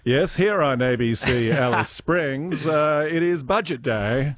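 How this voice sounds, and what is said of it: Put-on old-fashioned received pronunciation accent. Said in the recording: “I do wish I had an accent like that. I could still do that ... received accent, which is where obviously the ABC aped the BBC, who pretty much aped the royal family”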